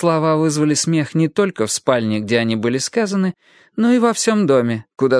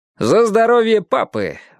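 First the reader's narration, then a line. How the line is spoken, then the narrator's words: Exclaiming. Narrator (Russian): воскликнул Аурелиано II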